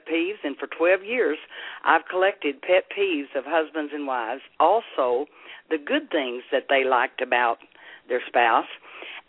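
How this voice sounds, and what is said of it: Southern American accent. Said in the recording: “I hear that wonderful, beautiful Southern accent ... I'm Southern. I have that accent.”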